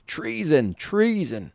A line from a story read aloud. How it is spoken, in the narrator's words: screamed